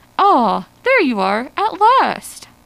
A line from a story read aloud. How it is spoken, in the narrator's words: Ardan exclaimed